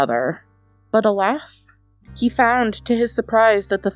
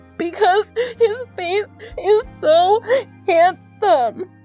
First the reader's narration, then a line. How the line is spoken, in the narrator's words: answered Joachim, still sobbing